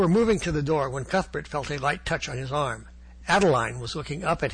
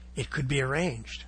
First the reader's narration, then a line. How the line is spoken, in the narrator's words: she whispered softly